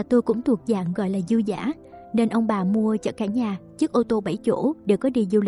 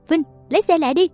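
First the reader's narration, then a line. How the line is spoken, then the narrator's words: Older man shouting. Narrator (Vietnamese): Ba chồng tôi hét lên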